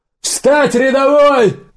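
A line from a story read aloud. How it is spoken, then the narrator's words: Sudden yell. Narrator (Russian): заорал Убер внезапно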